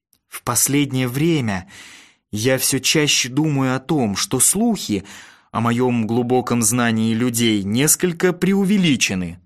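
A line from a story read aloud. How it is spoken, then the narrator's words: Sighing. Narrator (Russian): вздохнул я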